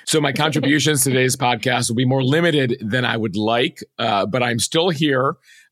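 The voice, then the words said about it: Lost voice, hoarse. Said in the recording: “So I've sort of lost my voice. ... I was losing my voice through the podcast. ... I feel much better than I sound,”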